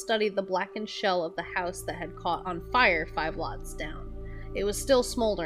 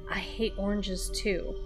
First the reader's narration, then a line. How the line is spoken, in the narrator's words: She murmured